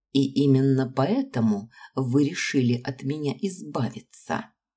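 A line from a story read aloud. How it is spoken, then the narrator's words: Even tone, slight tremble. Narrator (Russian): Спросила я ровным тоном, хотя мой голос едва заметно дрожал от сдерживаемых эмоций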